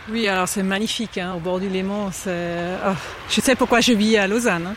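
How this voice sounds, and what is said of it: Slight non-native accent in French. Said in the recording (French): “j'entends un petit accent”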